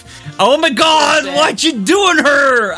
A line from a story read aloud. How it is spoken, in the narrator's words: I screamed